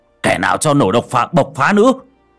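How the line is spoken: Shouting. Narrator (Vietnamese): Ông Khôi hét lên

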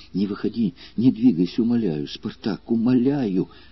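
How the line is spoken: Agitated fearful whisper. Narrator (Russian): взволнованно шептала несчастная женщина

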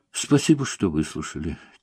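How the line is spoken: Quiet. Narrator (Russian): тихо вымолвила она

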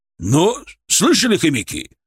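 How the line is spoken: Barked. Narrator (Russian): рявкнул он

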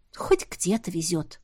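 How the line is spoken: Muttered reply. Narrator (Russian): пробормотала я в ответ

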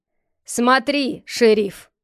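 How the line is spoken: Loud blind man. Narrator (Russian): громко сказал слепой

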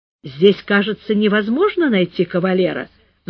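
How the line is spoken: Sighing. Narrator (Russian): вздохнула

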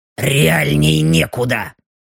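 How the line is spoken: Grumbling mutter. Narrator (Russian): буркнула Белочка

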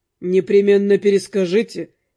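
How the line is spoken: Amused snort. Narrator (Russian): хмыкнул Руперт

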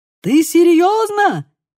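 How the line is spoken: Shout. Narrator (Russian): крикнул Лука

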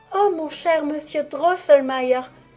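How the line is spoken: Exclaimed. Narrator (French): s'écria Marie

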